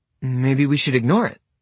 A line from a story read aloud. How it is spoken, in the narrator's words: Simon says